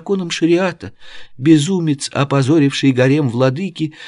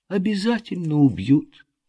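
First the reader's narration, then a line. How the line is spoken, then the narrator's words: Flat comforting small voice. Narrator (Russian): Бесцветным утешающим голоском продолжила маленькая Епифенди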